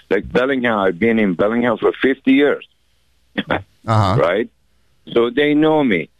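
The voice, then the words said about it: Iranian-accented English. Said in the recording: “they hear you speak ... you're an Iranian ... they can tell. By your accent”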